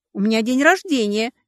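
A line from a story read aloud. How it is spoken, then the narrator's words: Tragic moan. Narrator (Russian): еще более трагично простонала я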